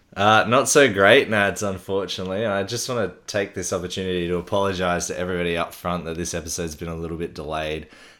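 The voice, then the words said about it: Sick, under-the-weather voice. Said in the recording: “As you can probably tell from my voice, I've been a little bit under the weather, and I'm still not quite back to 100%”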